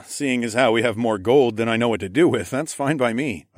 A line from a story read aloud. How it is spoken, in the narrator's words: I chuckled